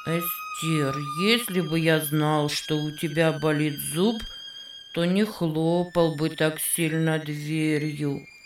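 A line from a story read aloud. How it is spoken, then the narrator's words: Embarrassed mutter. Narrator (Russian): пробормотал он, смущенно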